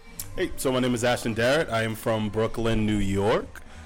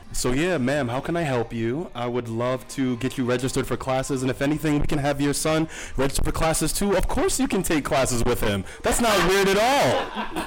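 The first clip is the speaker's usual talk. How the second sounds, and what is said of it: Code-switched voice, speaking to white person. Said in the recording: “Give me your code switching voice as if you were speaking to a white person.”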